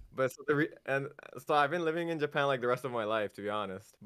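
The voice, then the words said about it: American English accent. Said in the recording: “It does sound like you have an American accent.”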